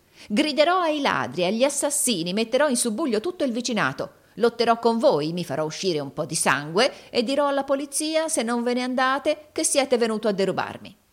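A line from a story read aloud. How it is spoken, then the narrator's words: Horrible shriek. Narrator (Italian): rispose Gride ... con un orribile grido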